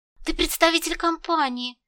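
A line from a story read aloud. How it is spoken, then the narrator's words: Joyful, smiling. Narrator (Russian): радостно улыбнулся тот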